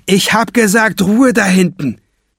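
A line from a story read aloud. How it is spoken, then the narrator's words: Shouting. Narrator (German): schreit der Bankräuber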